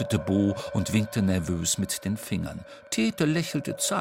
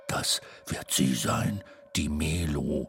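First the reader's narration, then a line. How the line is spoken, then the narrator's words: Murmur. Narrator (German): raunte er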